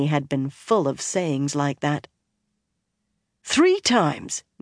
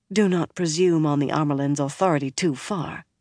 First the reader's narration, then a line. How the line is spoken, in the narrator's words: Moiraine said coolly